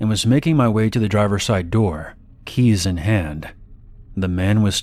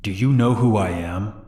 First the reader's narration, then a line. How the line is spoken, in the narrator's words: He then said in a very aggressive tone